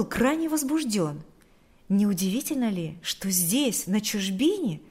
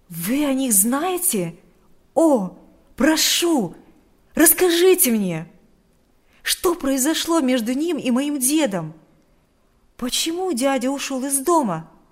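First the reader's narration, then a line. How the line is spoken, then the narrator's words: Impatient exclamation. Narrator (Russian): воскликнул Адам с нетерпением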